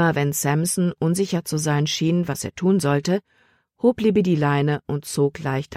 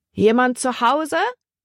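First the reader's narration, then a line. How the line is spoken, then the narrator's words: Called out. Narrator (German): rief Libby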